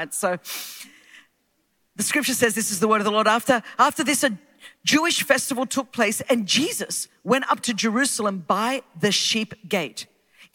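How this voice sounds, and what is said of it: Australian accent. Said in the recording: “vibe with my accent ... this is how the accent got refined when they sent the convicts to Australia”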